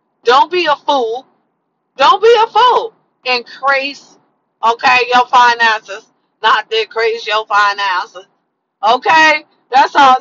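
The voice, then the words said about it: Imitates another person's voice. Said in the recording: “I said that in my best Katt William voice.”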